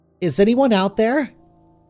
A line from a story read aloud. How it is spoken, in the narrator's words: Margaret called out, her voice trembling